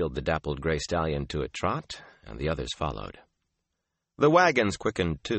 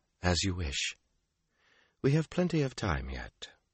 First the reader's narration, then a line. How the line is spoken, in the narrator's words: she sighed